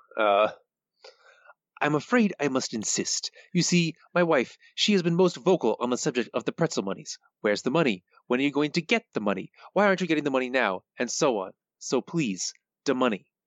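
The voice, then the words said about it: Imitates a cartoon mobster's voice. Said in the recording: “How good is your Fat Tony? ... My impression? It's terrible. I can't do it at all. ... That was pretty good.”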